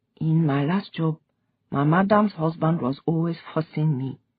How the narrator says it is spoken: she said quietly

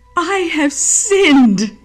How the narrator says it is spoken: again cried Judas

